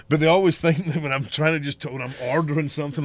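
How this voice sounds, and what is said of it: Strong accent that sounds old-fashioned. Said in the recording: “everybody fucking thinks I'm trying to talk with the days of yore and it's just my fucking accent.”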